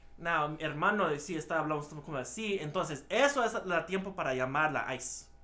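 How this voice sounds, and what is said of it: Spanish in a bad American accent. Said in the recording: “I'm saying it with a bad accent, so that way I'm just an American dude saying it”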